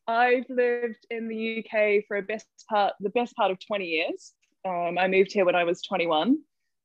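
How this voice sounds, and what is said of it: New Zealand accent. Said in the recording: “So I'm a Kiwi. That's the accent. It's not a speech impediment. It is an actual way of talking.”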